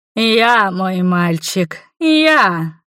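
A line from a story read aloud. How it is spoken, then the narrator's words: Woman's purring voice. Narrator (Russian): практически промурлыкала огненная женщина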